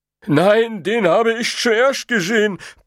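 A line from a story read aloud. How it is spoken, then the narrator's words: Giant's loud protest. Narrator (German): protestierte der Riese laut an den Neuankömmling gewandt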